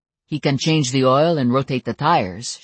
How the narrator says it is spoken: she said

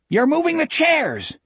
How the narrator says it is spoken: the tall boy screamed behind him

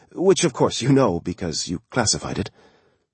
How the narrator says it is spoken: she said, and then quickly added

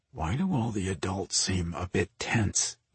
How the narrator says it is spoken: he murmured

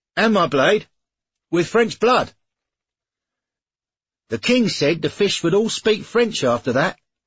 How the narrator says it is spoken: shouted another

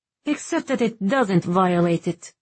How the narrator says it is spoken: Vivia snapped, lips curling back

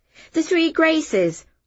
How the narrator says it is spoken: I blurted, as if I had just thought of it

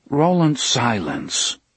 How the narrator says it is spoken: Roland said

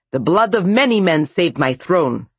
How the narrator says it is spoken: snapped Dmitri

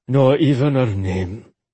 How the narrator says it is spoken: he rumbled

